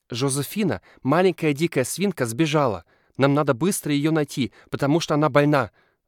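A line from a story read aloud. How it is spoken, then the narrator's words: Anxious reply. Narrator (Russian): взволнованно отвечает Элиас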